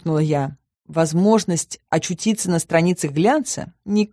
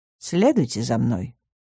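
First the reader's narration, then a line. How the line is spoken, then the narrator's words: Dry curt man. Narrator (Russian): сухо обронил мужчина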